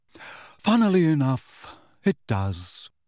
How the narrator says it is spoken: said nearly headless Nick in a bored voice

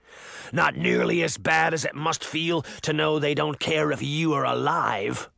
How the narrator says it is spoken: the wolf snarled

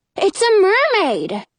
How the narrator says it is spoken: Jonah exclaims

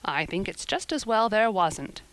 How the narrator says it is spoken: said Marilla dryly

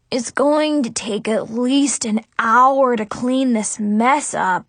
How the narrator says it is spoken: Zoe groaned

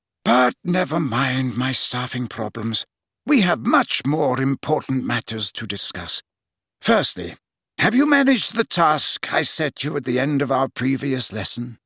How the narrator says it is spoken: Dumbledore heaved a deep sigh, then said

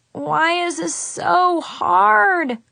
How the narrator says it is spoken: groaned and covered my face with my hands

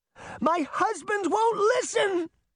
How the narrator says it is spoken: Beauty cried as she raced into the woods

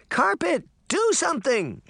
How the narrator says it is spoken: she cried

